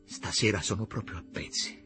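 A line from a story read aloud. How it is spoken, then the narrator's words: Low voice. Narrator (Italian): le disse a voce bassa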